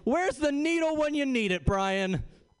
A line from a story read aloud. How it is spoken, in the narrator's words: yelled